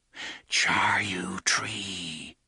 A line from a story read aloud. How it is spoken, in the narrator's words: they whispered